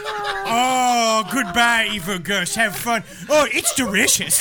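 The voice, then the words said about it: Austin Powers character impression. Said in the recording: “Almost sounded like Austin Powers. ... Are you Mike Myers? ... You're a very good impression. I thought it was dead on”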